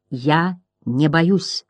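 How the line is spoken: Calm reply. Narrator (Russian): спокойно отвечал Бастиан

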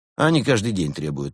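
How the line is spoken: Grumbling. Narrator (Russian): проворчал капитан

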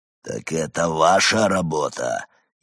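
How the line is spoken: Furious growl. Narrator (Russian): яростно прорычал он

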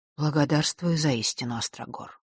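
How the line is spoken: Quietly. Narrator (Russian): тихо сказал он

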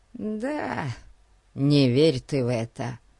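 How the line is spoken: Barely audible. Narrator (Russian): еле слышно произнес Фати

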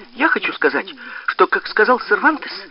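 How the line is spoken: Flustered babbling. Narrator (Russian): пролепетала Нина, лихорадочно

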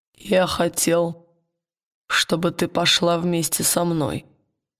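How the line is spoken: Quiet hoarse answer. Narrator (Russian): ответил он негромким, хриплым голосом

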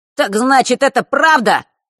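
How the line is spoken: Sudden shrill. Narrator (Russian): неожиданно визгливо произнес Норт

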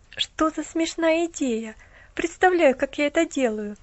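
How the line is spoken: Laughing. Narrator (Russian): засмеялась девушка

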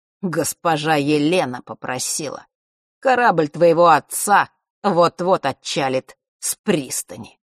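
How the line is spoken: Gloating snort. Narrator (Russian): Он злорадно хмыкнул

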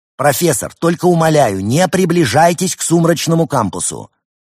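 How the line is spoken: Shout after someone. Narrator (Russian): Константин выкрикнул ему вслед

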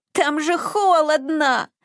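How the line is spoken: Whimpering. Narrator (Russian): захныкал Изюмка, уже привыкший к теплу

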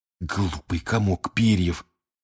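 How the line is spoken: Hissing. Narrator (Russian): прошипел Рон

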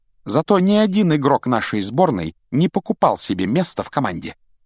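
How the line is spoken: Crisp, clipped. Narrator (Russian): отчеканила Гермиона

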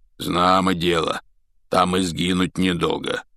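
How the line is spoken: Hoarse rasp. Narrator (Russian): прохрипел Хагрид

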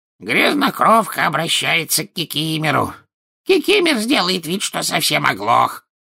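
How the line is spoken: Hoarse croak. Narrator (Russian): Кикимер прохрипел

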